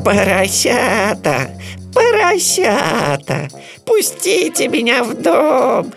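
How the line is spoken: Bleating voice. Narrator (Russian): сказал он блеющим голосом

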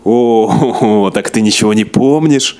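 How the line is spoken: Laughing. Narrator (Russian): рассмеялся

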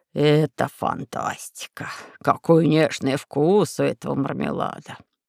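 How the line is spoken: Confectioner's drawl. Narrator (Russian): протянул кондитер

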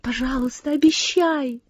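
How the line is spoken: Pleading. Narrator (Russian): взмолила Сесси

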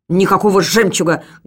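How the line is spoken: Barked. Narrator (Russian): гаркнул тот

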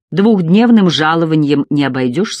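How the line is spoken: Angry. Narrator (Russian): сердито сказала она

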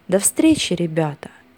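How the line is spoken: Loud. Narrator (Russian): громко сказал

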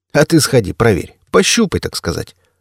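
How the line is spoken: Tank chuckling. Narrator (Russian): хохотнул танк

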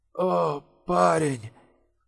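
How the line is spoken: Muttered. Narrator (Russian): бормотал

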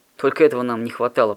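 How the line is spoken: Growling man. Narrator (Russian): прорычал он

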